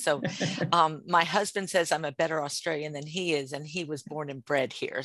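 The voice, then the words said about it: American accent. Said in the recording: “I am an American living in Australia... everybody's going to hear my accent first and foremost”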